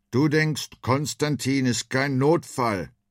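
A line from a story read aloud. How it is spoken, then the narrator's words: Call. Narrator (German): rief er Freddy zu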